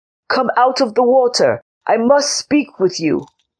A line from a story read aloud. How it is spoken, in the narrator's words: called out